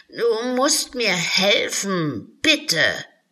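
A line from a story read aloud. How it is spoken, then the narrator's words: Unicorn whining. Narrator (German): jammerte das Einhorn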